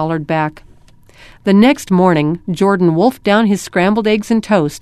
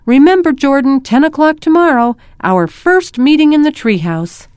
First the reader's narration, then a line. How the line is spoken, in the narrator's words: Derek yelled over his shoulder